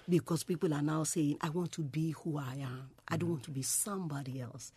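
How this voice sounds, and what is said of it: Nigerian English accent. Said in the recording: “I still want to retain my accent, because I still want to define myself as a Nigerian”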